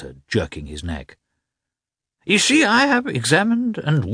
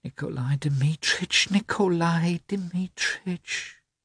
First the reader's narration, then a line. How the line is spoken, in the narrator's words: whispered Maria Nikolovna